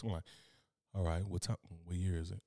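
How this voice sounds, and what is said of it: Calm, smooth jazz-style voice. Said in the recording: “Calm, cool as the other side of the pillow. ... I gave it a smooth jazz voice.”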